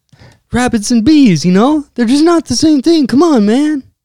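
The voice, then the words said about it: Imitates another person's voice. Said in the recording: “my horrible Biden impression”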